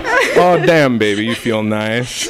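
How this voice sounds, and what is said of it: Put-on accent. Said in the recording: “This is a great accent for a sex scene”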